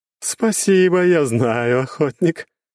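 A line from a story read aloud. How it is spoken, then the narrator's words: Laughing. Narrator (Russian): рассмеялась бездна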